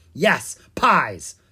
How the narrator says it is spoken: the Pumpkin King snapped

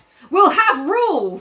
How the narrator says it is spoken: he cried excitedly

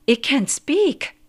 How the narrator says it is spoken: gasped

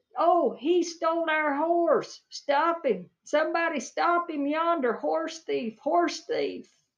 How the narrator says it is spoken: shooting and hollering, and he said

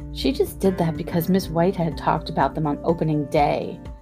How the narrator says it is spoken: Harriet sneered

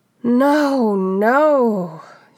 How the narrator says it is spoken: she sighed loudly

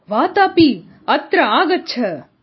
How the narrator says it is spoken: Ilvala shouted louder

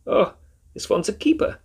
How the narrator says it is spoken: said the woman in a thick German accent

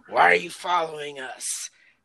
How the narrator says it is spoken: hissing in your face

